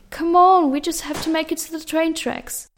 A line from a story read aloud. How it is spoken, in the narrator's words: yelled over the sounds of bullets being fired at them